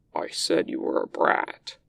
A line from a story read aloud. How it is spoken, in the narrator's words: he rumbles in Wei Ying's ear